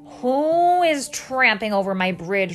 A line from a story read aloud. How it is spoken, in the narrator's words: roared the troll